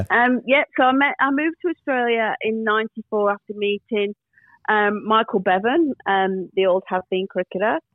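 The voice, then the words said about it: English Manchester accent. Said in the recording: “born in the UK in Manchester ... Can't you tell by that accent?”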